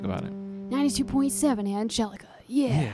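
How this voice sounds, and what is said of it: Radio DJ announcer voice. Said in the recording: “DJ voice ... manufacture a DJ ... It's mild. It's nice, but it has that edge.”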